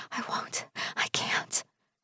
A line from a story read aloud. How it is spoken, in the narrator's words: whisper back breathlessly